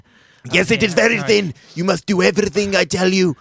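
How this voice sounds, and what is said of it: Put-on foreign accent. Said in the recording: “I picked up an accent”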